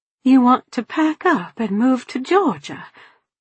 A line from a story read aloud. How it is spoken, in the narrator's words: My voice actually quavered when I asked